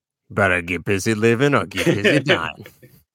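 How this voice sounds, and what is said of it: Poor impression of a film character. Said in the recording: “my horrible impersonations”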